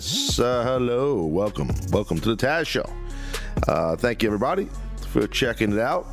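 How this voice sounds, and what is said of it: Congested, rough voice. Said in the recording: “sorry for my voice. It's that allergy season. I got some little drip going on”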